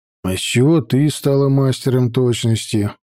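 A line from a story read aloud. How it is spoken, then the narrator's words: Glum questioning reply. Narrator (Russian): Уныло ответил я вопросом на вопрос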